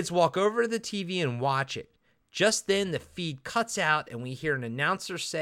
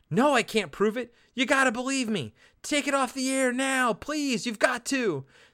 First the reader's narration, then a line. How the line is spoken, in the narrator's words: Chalice is still yelling on the phone